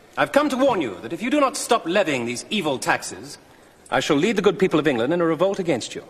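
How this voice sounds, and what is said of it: English accent. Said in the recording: “I can speak with an English accent”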